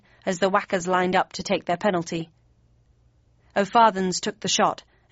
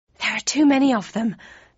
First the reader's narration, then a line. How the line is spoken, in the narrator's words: panted Snake